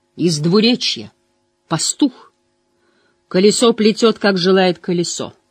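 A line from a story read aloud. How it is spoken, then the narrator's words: Loud, possibly mocking. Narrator (Russian): громко произнесла Элайда, и Ранд не взялся бы сказать наверняка, был ли в ее тоне оттенок издевки или нет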